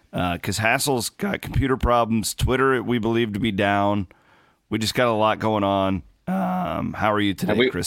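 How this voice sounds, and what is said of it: Slightly scratchy, hoarse voice. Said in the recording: “I apologize for my voice too. I'm still a little, uh, still a little scratchy from yelling”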